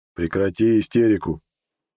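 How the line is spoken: Cold. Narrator (Russian): холодно поморщился

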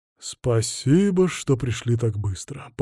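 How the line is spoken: Pleasant bass voice. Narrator (Russian): поблагодарил он нас приятным басом

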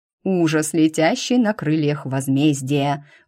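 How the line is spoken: Deep guttural proclamation. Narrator (Russian): утробным голосом провозгласила я

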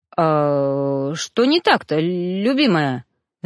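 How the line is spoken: Stammering question. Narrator (Russian): заикаясь, спросил Ноан

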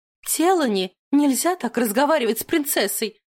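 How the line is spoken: Exclamation. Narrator (Russian): воскликнула она

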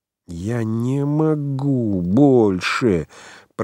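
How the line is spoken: Drawn-out moaning whisper. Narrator (Russian): протяжно со стоном шептал Франц

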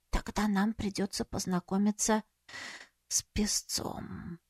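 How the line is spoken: Whisper. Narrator (Russian): Света прошептала

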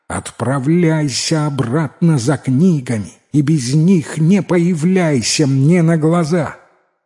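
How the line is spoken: Angry tearful shout. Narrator (Russian): Утерев слезы, она гневно закричала

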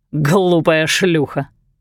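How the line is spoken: Doctor's guffaw. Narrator (Russian): хохотнул доктор

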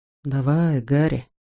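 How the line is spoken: Whisper. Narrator (Russian): шепнул

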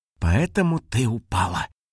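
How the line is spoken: Hiss. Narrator (Russian): прошипел Пых

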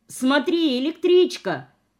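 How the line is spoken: Shout. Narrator (Russian): крикнула я

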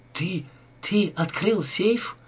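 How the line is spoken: Frightened question. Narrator (Russian): испуганно спросила Ева

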